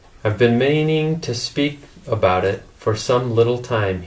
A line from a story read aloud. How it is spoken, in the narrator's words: said